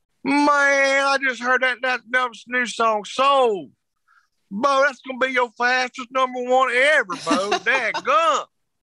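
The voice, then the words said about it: Imitates another person's voice. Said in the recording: “Your impression of him, too, I'm sure, is spot on.”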